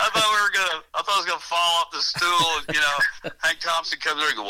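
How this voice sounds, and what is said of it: Usual voice. Nothing is said of it.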